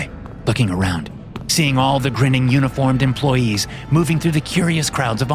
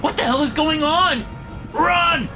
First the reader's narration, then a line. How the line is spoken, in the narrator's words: shout